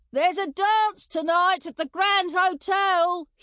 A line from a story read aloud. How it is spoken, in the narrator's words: he shouted